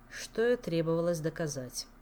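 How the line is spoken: Gloomy sigh. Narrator (Russian): мрачно вздохнул Шелар

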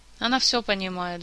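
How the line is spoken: Sighing. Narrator (Russian): вздохнул Элмар

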